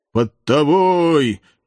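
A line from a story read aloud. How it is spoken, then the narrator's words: Muffled voice from below. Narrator (Russian): глухо раздалось снизу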